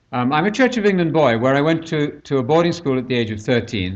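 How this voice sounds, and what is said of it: British accent, slightly Americanized. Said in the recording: “you'll hear from my accent that I'm not from Georgia ... I have modified my accent somewhat ... to myself, I sound, I suppose, reasonably British”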